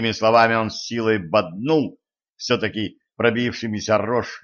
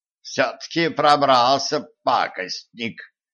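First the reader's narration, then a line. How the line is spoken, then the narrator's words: Creaky old voice. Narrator (Russian): проскрипел старческий голос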